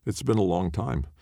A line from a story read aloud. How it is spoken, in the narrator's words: Ortiz said